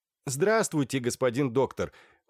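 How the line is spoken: Children shouting in chorus. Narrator (Russian): хором прокричали Любочка, Сашенька и Коленька

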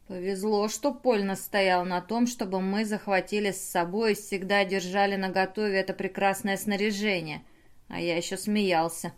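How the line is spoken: Muttering. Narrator (Russian): пробормотал Бернар

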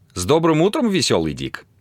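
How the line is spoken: Relaxed, cheerful, smiling. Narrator (Russian): непринужденно и весело улыбаясь

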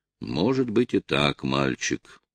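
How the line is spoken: Muttering male voice. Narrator (Russian): пробормотал разведчик

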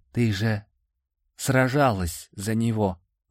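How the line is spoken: Nagging inner whisper. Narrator (Russian): въедливо шепнул внутренний голос

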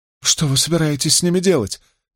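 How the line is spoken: Trembling voice. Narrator (Russian): дрожащим голосом спросила жена Гетоса

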